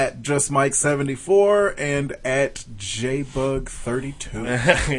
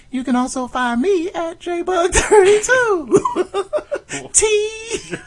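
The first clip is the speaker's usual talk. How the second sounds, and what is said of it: High-pitched imitation of another person. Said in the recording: “Sound like that. ... He's got a high voice.”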